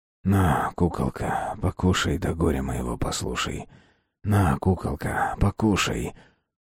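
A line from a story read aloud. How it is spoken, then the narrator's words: Barely audible exhale. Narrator (Russian): Выдохнул Константин чуть слышно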